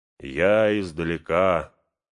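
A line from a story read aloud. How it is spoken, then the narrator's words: Hollow, almost voiceless. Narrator (Russian): говорит, глухо, будто без голоса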